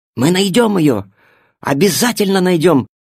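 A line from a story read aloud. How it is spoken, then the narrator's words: Exclaiming. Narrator (Russian): воскликнул Тильтиль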